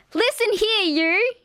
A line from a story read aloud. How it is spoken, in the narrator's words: she yelled